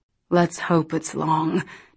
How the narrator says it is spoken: Daniel muttered under his breath

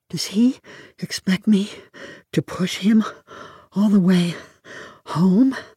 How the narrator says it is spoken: I asked myself, panting

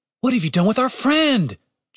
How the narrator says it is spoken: Julian shouted

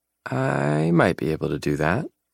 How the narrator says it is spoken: she says playfully

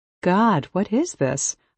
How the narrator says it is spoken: laugh

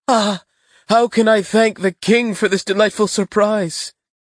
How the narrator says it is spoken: embracing her with the utmost tenderness, cried

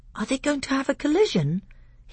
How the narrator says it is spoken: he asked in an awestruck voice

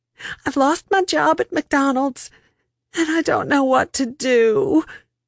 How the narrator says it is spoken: she said between sobs

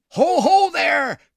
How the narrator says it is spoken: cried a tremulous voice in the rear

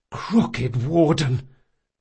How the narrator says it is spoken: Locke gasped

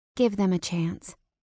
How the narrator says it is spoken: she said quietly

